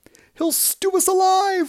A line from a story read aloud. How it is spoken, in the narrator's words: wailed the second